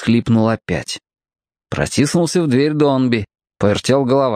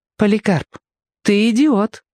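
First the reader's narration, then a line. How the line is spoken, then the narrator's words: Gentle. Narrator (Russian): мягко сообщил Бамбала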